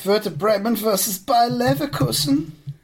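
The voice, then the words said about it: Put-on German accent. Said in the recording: “I'm going to start saying these in all my best German accent.”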